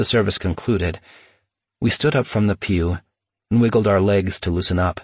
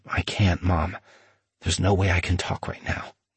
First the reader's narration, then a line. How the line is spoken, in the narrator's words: I whispered